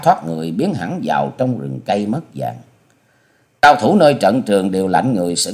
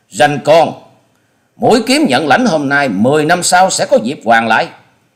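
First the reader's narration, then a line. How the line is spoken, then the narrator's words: Shocked, hateful hiss. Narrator (Vietnamese): Truy Hồn Trảo kinh mạc thất sắc, ánh mắt lóe ra sự hận thù, cắn môi rít tiếng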